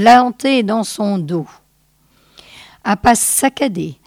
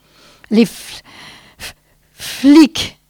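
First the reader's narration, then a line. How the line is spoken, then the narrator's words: Stammered. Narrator (French): balbutia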